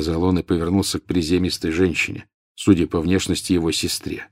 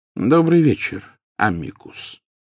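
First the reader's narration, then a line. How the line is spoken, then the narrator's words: Calm, welcoming. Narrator (Russian): спокойно произнес Дамблдор, словно приветствуя гостя, явившегося на чашку чая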